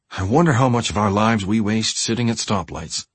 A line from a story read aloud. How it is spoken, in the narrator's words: he said